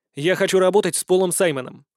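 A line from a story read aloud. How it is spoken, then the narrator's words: Plain. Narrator (Russian): сказал он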